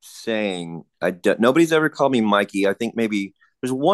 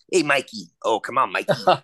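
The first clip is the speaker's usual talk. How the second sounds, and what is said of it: Thick put-on East Coast accent. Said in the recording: “he had such a thick East Coast accent”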